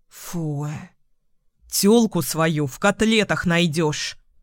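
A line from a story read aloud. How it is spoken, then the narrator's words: Growling. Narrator (Russian): рыкнул Костров Артём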